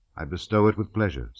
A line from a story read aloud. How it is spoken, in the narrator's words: said Napoleon